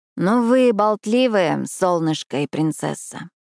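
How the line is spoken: Sleep-hoarse voice. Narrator (Russian): хриплым ото сна голосом заключила Эшли

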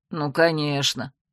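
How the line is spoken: Grumbling mutter. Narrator (Russian): пробурчал брат

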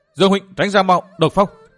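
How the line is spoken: Loud urgent shout. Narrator (Vietnamese): Phan Ngọc Anh hét to

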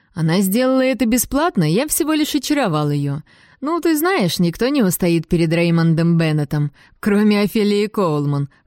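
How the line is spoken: Laughing. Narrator (Russian): хохотнул

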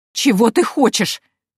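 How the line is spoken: Strangled exclamation. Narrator (Russian): сдавленно воскликнула невестка

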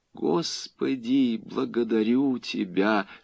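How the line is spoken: Whispered to herself. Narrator (Russian): шептала она про себя

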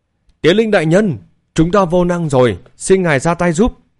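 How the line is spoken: Loud shout. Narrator (Vietnamese): Thôn trưởng hét lớn

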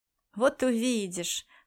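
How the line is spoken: Chuckling. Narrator (Russian): хохотнул охотник

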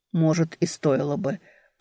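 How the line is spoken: Muttering. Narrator (Russian): пробормотал Эберт

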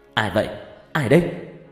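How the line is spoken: Startled shout. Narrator (Vietnamese): Tôi giật mình quát

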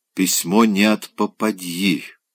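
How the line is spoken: Hissed. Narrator (Russian): прошипел он

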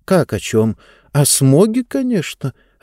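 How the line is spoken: Confused reply. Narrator (Russian): растерянно ответила Диба

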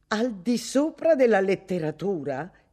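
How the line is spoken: Woman exclaiming. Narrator (Italian): esclamò lei

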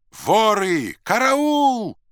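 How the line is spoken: Group shouting. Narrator (Russian): кричали они

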